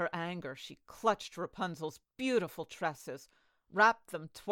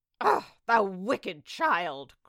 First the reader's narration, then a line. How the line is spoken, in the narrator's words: cried the enchantress